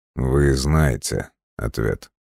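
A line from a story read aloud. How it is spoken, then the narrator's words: Cold reply. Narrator (Russian): холодно отозвался Киво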